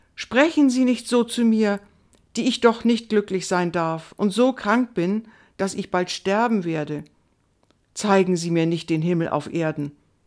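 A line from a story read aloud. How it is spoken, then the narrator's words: Confused cry. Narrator (German): rief Indiana ganz verwirrt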